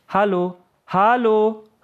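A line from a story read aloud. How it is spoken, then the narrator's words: Calling after someone. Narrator (German): rief Yahya einer Kameradin nach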